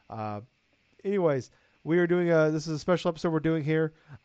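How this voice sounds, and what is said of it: Rough, unwell-sounding voice. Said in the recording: “Sorry for my voice, still uh, coming from COVID”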